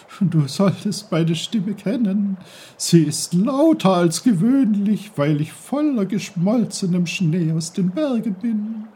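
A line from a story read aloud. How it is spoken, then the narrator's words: Giggling brook. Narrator (German): kicherte der Bach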